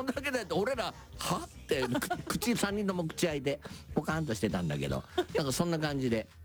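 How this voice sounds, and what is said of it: Usual voice. Nothing is said of it.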